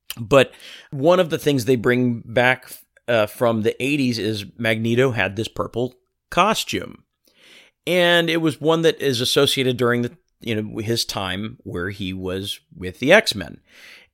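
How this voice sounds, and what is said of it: Hoarse, strained voice. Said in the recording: “I'm losing my voice, I don't know if you can hear it”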